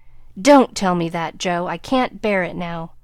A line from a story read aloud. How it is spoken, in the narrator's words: cried out in a fierce tone